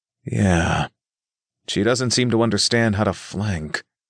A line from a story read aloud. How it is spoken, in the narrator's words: Nick sighed